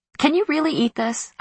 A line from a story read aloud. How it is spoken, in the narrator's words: I blurted, unable to stand it anymore